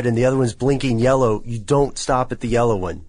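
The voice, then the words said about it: Raised, yelling voice. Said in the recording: “I'm sorry I raised my voice... stop yelling at me.”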